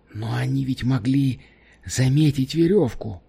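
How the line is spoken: Whisper. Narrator (Russian): прошептал он

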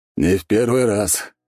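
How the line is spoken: Snorting. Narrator (Russian): хмыкнул ответ Алексей Александрович

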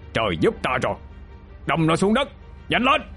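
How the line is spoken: Loud shout. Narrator (Vietnamese): Chinh quát lớn

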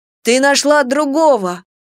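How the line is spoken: Melodramatic exclamation. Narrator (Russian): патетично воскликнул Саламандрик

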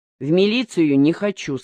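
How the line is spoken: Plain. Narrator (Russian): сказал Захар

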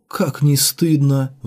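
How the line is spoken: Ashamed sigh. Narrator (Russian): вздохнул Дрогба пристыженный

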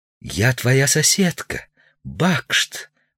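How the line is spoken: Whisper. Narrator (Russian): прошептала милица

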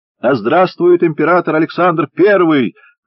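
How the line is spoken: Drunken shout from crowd. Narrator (Russian): пьяно закричал кто-то в толпе заговорщиков

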